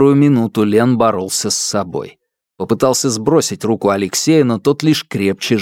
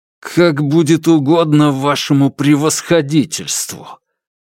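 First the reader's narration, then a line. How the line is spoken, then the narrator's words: Through gritted teeth. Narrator (Russian): процедил Лен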